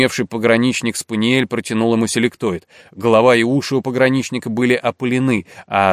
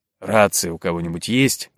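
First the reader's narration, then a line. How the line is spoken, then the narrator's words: Gloomy inquiry. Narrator (Russian): мрачно осведомился Цицаркин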